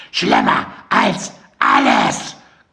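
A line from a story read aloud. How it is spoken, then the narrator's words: Shrieking again. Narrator (German): kreischte Mandy noch einmal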